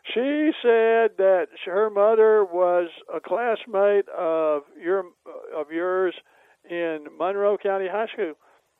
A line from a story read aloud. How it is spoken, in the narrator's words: I said very loudly, where everybody in the restaurant could hear it